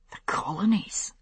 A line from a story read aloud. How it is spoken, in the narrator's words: he whispered